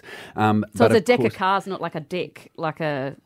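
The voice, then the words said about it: Put-on New Zealand accent. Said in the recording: “I did an accent there, and it was a mistake. ... It was a bit of a Kiwi accent.”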